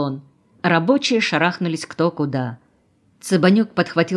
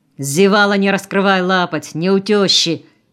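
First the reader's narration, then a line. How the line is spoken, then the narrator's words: Menacing shout. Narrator (Russian): грозно прикрикнул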